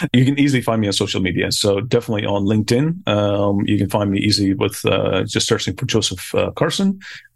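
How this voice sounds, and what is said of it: Belfast accent. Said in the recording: “I'm a paranoid person from Belfast, I guess the accent really came out there”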